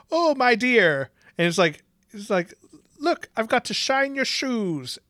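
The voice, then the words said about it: Deliberately bad Irish accent. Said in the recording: “how bad of an Irish accent ... he could not do a fucking Irish accent to really save his life ... my Irish accent is terrible ... aren't you supposed to be doing Irish? Like, throw a little Dublin on it”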